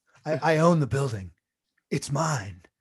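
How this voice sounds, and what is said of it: Imitates another person's voice. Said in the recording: “That's a very good Baldwin impression.”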